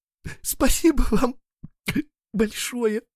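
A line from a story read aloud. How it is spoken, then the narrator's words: Sobbing. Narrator (Russian): всхлипывает она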